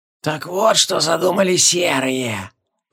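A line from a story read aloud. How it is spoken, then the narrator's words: Knowing creak, old woman hurrying. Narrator (Russian): Понимающе проскрипела старуха, торопясь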